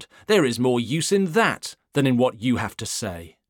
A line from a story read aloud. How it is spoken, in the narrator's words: he exclaimed